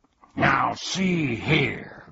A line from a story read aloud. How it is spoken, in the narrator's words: growled Tuck angrily